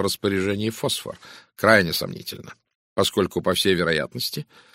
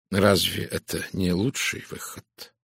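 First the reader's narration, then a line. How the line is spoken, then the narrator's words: Soft questioning. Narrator (Russian): мягко спросил Пуаро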